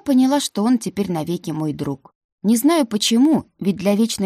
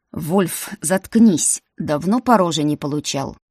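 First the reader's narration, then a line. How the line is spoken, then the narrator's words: Growling. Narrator (Russian): Зарычал на него Деймон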